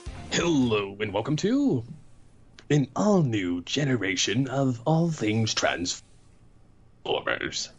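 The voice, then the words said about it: Weird put-on voice. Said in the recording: “weird voice”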